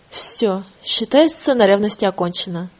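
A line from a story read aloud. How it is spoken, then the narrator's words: Angry. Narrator (Russian): зло проговорила Оля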